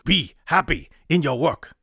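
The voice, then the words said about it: Bad put-on Japanese accent. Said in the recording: “In a bad Japanese accent”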